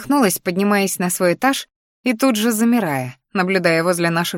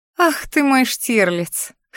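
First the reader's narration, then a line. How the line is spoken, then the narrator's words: Short laugh. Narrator (Russian): хохотнула я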